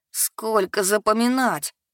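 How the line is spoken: Bitter groan. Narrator (Russian): Горько простонал Лис

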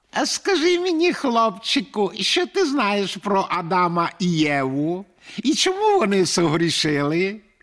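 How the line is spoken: Gentle question. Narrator (Ukrainian): Пан інспектор ласкаво запитав

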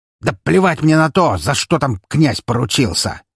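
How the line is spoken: Fat man barking. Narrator (Russian): рявкнул толстяк

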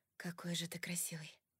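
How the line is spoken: Whisper. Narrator (Russian): прошептала я

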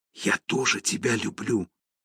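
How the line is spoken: Girl whispering. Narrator (Russian): шептала в ответ девочка

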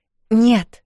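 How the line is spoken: Sisters exclaiming in unison. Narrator (Russian): Хором воскликнули сестры

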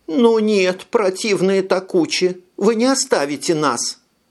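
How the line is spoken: Whimpering. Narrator (Russian): захныкала Номика

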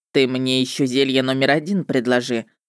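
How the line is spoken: Snort. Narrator (Russian): фыркнул ведьмак

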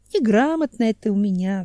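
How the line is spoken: Sighing. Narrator (Russian): вздохнул Семен

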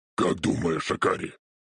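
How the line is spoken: Deep monstrous voice. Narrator (Russian): пробасил Син своим монструозным голосом

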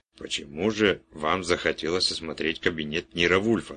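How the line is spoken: Plain question. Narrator (Russian): спросил Кремер

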